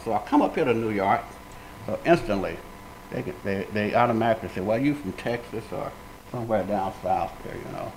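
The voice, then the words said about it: Southern American drawl. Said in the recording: “I got this southern drawl, I talk with a slang ... that's where I pick up that southern drawl.”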